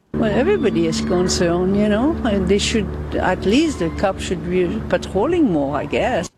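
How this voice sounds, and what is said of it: Foreign accent, possibly Dutch or German. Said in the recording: “Trying to figure out what accent that is. ... She kind of sounds like my good friend Prince von Anhalt. ... I was thinking she's like Dutch, maybe.”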